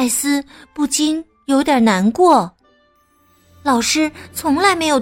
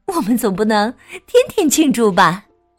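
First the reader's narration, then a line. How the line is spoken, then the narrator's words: Smiling reply. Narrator (Chinese): 妈妈一边回答，一边微笑着说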